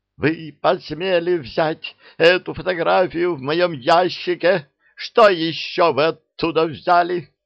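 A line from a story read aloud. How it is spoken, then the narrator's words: Trembling, furious indignant yell. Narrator (Russian): Дрожа от ярости, она завопила с возмущением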